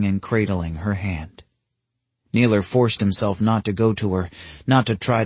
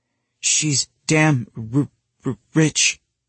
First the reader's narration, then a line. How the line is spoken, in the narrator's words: Naylor stuttered